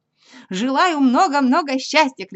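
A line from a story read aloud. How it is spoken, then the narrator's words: Shouting. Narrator (Russian): кричал Пух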